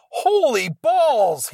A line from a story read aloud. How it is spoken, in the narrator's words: he exclaimed